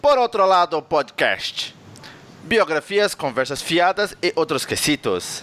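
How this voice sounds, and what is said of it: Clumsy imitation of another person's accent. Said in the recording (Portuguese): “tentando imitar o sotaque dele ... você tá tentando imitar o sotaque, você teve um derrame”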